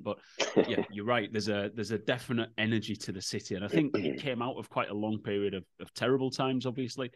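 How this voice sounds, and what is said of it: Non-Irish accent. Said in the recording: “I'm not a native, as you pick up from the accent.”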